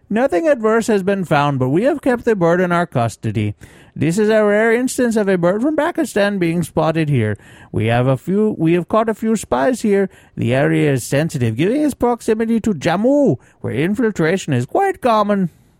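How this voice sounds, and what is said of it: Reads a quote in put-on accent. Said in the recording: “That accent, bro.”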